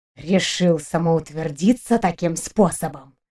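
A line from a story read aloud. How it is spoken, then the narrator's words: Quiet sinister whisper. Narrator (Russian): Тихим, зловещим шепотом уточнил преподаватель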